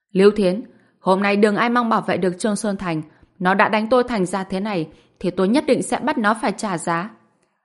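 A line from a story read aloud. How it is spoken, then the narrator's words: Loud shout. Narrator (Vietnamese): Dương Đông hét lớn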